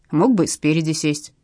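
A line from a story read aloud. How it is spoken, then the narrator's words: Displeased grumble. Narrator (Russian): проворчала недовольно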